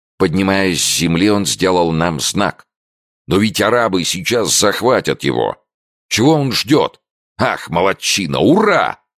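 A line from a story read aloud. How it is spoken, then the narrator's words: Excited shout from hunter. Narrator (Russian): закричал охотник, не в силах более сдерживаться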